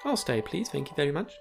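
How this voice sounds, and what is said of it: Exaggeratedly polite voice. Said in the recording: “In my politest possible voice.”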